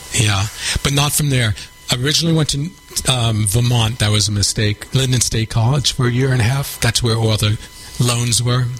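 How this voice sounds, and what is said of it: New York accent. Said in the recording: “you haven't lost your New York accent, ... You still got it.”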